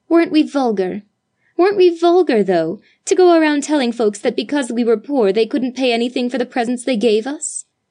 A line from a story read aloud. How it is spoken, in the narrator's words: exclaimed Judith contritely